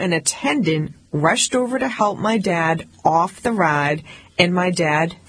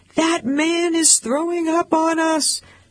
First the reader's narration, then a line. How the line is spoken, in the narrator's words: People around him started screaming